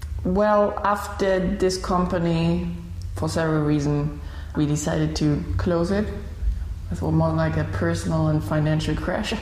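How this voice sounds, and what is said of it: Unusual blended German-accented English. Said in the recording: “You've got a very unusual accent... You have this very unusual accent. You are German, correct?... your English accent is a weird blend because you went to Malaysia”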